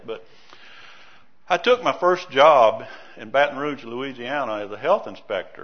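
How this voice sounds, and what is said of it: Louisiana Southern American accent. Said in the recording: “I was raised in Louisiana. Most of you might know that from my accent, ... even though I've been in Idaho 23 years, I still have it.”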